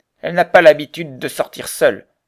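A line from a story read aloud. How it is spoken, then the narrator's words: Gruff reply. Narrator (French): répondit Morin d'un ton bourru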